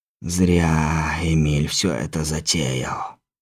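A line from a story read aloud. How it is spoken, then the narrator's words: Exhaled words. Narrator (Russian): выдохнул Сиятельный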